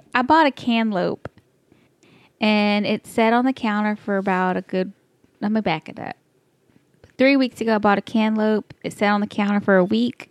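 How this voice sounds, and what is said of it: Texas accent. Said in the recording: “it sounded like you might have been saying a cantaloupe ... This is my Texas accent.”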